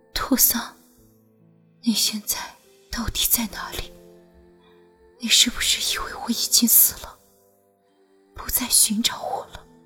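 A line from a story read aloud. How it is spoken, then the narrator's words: Weak murmur. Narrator (Chinese): 只喃喃道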